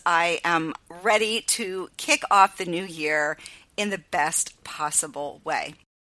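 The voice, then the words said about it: Excited, enthusiastic voice. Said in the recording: “I'm excited. As you can probably tell by my voice”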